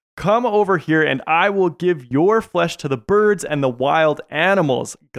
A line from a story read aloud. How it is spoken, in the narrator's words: Goliath yelled